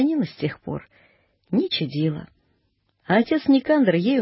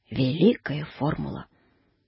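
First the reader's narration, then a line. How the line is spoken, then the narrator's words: Quiet. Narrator (Russian): тихо произнес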